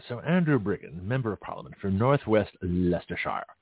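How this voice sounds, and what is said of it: Put-on British accent. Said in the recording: “Let me do it in a British voice.”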